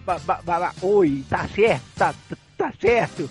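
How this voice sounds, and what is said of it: Imitates a stuttering voice. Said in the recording (Portuguese): “meu professor de Kung Fu, que era gago”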